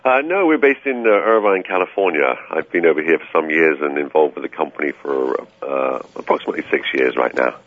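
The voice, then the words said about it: English accent. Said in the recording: “there must be an English accent there”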